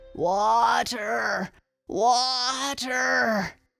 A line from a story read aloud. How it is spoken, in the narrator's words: he moaned